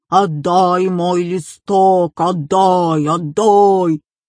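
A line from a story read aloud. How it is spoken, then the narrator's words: Screaming in terrible voice. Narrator (Russian): Она кричала страшным голосом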